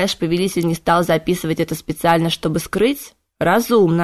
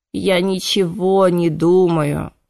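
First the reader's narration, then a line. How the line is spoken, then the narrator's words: Exhausted moan. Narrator (Russian): измученно простонал Кайден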